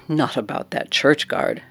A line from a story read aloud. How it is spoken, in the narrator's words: laughed